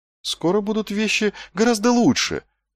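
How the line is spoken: Relieved whisper. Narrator (Russian): прошептал Вонс, испытывая временное облегчение от смены темы

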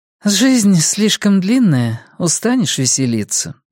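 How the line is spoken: Sighing. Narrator (Russian): вздохнула Карин

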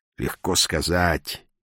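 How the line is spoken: Grumbled, head down. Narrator (Russian): буркнул он, не поднимая головы от тазика

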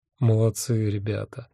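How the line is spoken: Tender. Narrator (Russian): нежно сказал я

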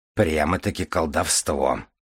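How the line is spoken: Snorted, prince. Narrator (Russian): фыркнул князь

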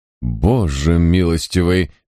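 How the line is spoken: Exclaiming. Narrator (Russian): воскликнул Дирик

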